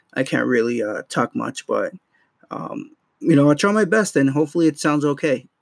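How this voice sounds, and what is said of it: Strained, cracking, worn-out voice. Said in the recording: “my voice was shot already ... my voice sounds like that. It kind of sounds like it's going and coming back and going, and it's just horrible”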